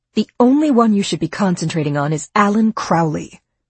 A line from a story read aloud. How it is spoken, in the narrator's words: Fran said firmly, as her eyes filled with tears